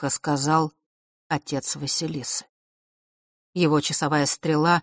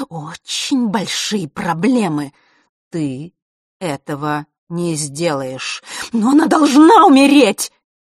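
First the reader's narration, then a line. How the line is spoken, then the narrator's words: Desperate wail. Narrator (Russian): Отчаянно взвыла Елена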